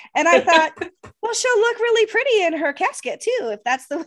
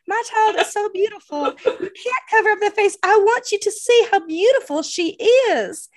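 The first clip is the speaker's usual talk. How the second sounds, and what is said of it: Imitates another person's accent. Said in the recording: “She literally has this accent.”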